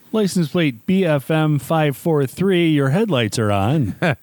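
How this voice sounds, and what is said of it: Mock PA announcer voice. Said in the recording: “do my little announcer voice”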